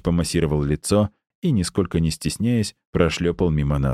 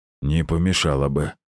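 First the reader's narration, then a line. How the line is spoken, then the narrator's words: Grumbling doctor. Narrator (Russian): пробурчал врач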